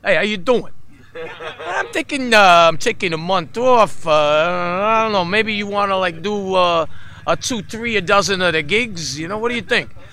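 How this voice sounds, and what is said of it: Heavy New York accent impression. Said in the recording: “Spoke with this really heavy New York accent”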